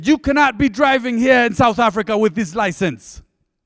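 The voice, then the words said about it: Put-on African accent. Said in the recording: “I haven't really tried an African accent much, but it just kind of came out.”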